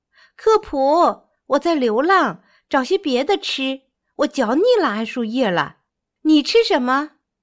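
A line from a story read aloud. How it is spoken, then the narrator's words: Loud calling. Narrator (Chinese): 基姆看见袋鼠克普从树下跳过，他大声喊道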